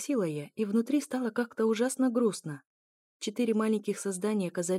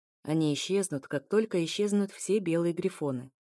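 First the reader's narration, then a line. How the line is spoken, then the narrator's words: Plain. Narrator (Russian): ответил эфир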